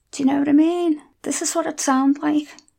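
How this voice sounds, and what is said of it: Strong Merseyside accent. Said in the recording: “I'm from Merseyside. And if I really let my accent out, like I do when I go home”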